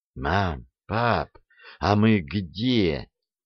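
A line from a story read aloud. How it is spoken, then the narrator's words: Whispered question. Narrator (Russian): спросила Леночка шепотом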